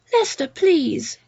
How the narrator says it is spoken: Jill pleaded

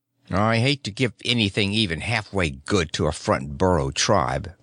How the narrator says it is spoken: the squatty man muttered

